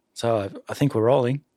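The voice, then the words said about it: Weak attempted New Zealand accent. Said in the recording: “I can't do the Kiwi accent so well though.”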